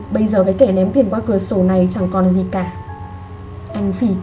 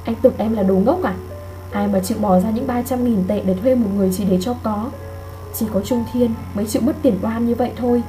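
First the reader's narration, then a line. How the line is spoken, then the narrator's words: Soft voice. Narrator (Vietnamese): Lương Duyệt khẽ nói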